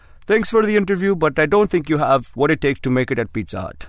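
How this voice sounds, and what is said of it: Put-on Indian accent. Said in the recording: “there's my horrible, racist Indian accent.”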